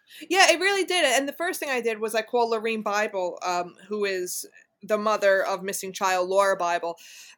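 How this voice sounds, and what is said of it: Non-Oklahoman accent. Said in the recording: “it's pretty easy to tell from your accent. You are not a native Oklahoman... I sound more like Robert De Niro.”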